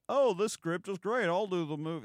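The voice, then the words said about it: Imitates another person's voice. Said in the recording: “That's my Mel Gibson impression”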